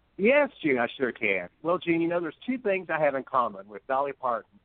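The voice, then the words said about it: Southern US accent. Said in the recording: “some of this southern accent that I have ... your fine southern accent”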